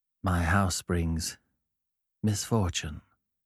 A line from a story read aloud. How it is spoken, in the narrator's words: he replied quietly